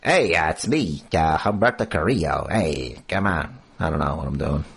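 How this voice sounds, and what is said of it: Silly put-on character voice. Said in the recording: “Stupid voice.”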